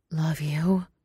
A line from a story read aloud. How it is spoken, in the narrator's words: Hua Cheng pants into her mouth